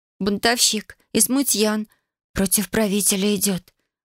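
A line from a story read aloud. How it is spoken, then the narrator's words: Rapid whisper. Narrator (Russian): быстро зашептала она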